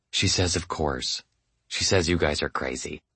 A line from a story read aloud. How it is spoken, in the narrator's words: smiled, put her hand over the phone, and whispered